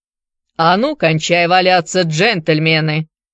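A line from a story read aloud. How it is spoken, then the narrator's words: Harsh bark. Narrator (Russian): рявкнул вместо приветствия незнакомец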